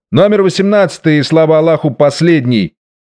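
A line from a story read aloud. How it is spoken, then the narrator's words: Curt, disgusted sour shout. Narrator (Russian): крикнул отрывисто и брезгливо кислым голосом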